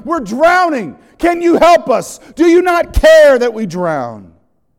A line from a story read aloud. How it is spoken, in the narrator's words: They're shouting